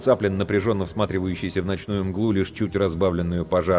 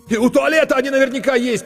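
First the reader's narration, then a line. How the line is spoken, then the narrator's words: Nearly shouting. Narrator (Russian): почти закричал Коля Корноухов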